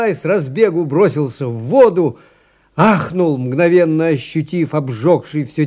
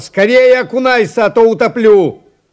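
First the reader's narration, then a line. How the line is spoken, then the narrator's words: Sputtering shout. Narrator (Russian): отфыркиваясь, закричал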